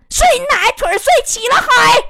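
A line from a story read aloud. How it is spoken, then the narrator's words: Sudden roar. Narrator (Chinese): 钉子在电话这头突然大吼一声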